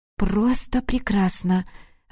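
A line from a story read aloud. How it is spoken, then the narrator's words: Breathless, enthusiastic. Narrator (Russian): воодушевленно выдохнула та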